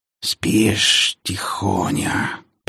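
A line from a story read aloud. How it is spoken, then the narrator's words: Hiss over phone. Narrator (Russian): прошипели в трубку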